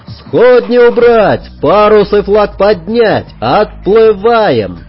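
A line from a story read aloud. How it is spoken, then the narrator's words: Shouting. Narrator (Russian): прокричал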